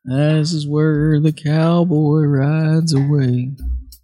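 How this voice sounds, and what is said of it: Poor impression of a country singer. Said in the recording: “in the words of the immortal King George Strait ... That was a terrible impression.”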